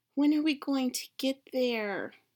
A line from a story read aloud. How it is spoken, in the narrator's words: Ivan whined